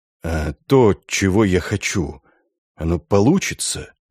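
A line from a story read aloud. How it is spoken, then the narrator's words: Quiet question. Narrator (Russian): тихо спросил Синкевич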